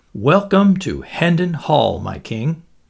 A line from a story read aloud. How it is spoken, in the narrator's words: exclaimed Myles